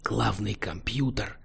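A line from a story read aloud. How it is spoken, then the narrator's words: Whisper. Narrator (Russian): прошептал ему Кейн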